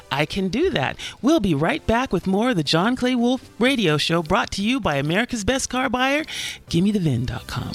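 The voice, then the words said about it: Polished professional voiceover voice. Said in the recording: “She sounds like a professional voiceover reader”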